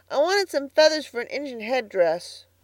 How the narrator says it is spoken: said Davy, sulkily

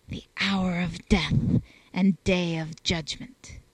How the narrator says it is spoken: the fledgling curate adds gravity to the litany by whispering

